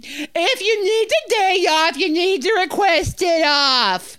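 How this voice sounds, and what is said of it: Yelling imitation of another person's voice. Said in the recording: “still yelling ... I think I'm doing a spot on impression of her”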